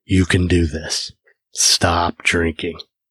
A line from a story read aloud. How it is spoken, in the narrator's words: My inner voice said at a volume setting of a whisper